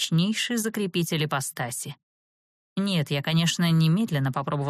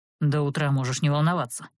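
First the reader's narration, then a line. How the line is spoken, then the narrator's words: Grumbling. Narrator (Russian): проворчал второй голос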